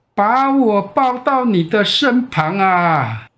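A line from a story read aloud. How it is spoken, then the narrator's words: Happy loud call, frog. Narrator (Chinese): 青蛙好快乐哦，大声的叫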